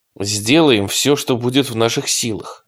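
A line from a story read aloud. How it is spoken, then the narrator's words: Plain. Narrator (Russian): сказал Дэн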